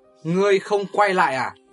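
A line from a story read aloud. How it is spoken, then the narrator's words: Sudden shout. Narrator (Vietnamese): hắn vụt quát lên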